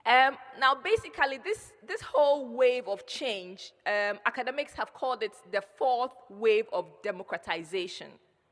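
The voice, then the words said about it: Ghanaian-accented English. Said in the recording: “let me know by a wave if you can hear my accent. If you can't, I will try and change it a bit”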